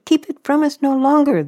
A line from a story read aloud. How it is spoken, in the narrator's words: they begged